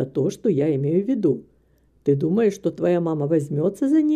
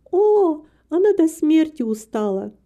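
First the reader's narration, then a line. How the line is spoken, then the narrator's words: Sighing. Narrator (Russian): вздохнула Рита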